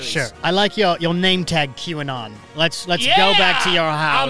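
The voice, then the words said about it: Put-on British accent. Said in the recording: “All I hear is a British accent”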